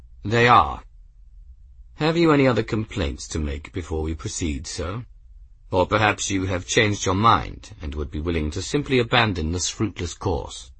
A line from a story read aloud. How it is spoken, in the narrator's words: Esterbrook said calmly